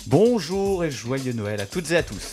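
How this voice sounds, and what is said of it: Santa Claus-style voice. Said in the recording (French): “tu as fait l'accent un peu du Père Noël”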